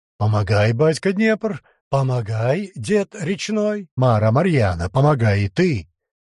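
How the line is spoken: Abrupt shout, prince. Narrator (Russian): Выкрикнул отрывисто князь

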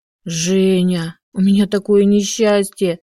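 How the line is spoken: Dejected voice. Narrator (Russian): упавшим голосом сказала тетя Мила

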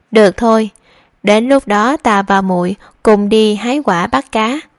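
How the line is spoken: Relieved, smiling speech. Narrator (Vietnamese): cả người nhẹ nhõm hơn, mỉm cười nói

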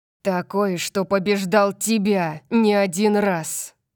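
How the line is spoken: Hissing. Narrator (Russian): Прошипел Калиб

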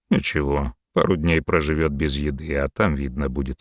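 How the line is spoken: Calm. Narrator (Russian): спокойно ответил Рахотеп

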